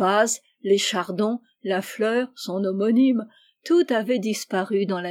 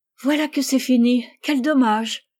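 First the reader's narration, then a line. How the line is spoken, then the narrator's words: Exclaimed. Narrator (French): s'écria Rose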